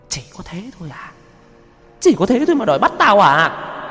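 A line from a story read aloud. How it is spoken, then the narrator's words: Shrill voice. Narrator (Vietnamese): Giọng nói cất lên the thé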